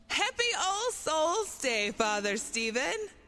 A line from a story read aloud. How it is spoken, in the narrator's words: shouted with a grin from ear to ear